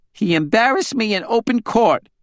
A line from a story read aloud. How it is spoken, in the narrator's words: Deanna whined